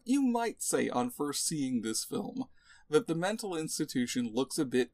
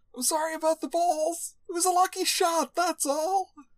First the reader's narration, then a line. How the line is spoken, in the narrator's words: shouting after the departing orderly